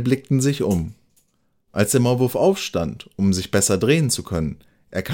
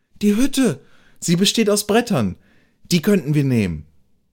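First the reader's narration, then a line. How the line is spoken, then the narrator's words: Called out. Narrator (German): Der Maulwurf rief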